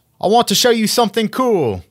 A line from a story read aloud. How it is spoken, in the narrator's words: I yelled so Viego would hear me